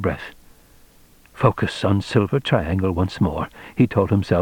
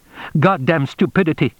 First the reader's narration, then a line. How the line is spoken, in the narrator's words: he said sharply